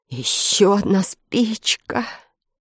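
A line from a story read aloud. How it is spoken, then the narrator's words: Whisper with heavy sigh. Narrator (Russian): с тяжелым вздохом прошептал Фред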